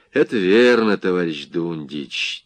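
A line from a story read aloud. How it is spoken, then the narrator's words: Heavy sigh. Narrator (Russian): тяжело вздохнул командир полка Петр Яковлевич Стрепухов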